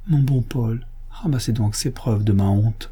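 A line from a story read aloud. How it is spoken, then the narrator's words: Pleading voice. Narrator (French): me dit, d'une voix suppliante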